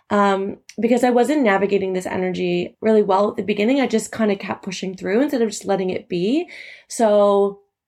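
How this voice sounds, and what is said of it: Slightly raspy voice. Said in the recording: “you can probably even hear that my voice is a little bit raspy”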